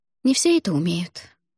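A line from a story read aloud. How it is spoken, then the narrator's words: Sighed. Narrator (Russian): вздохнула я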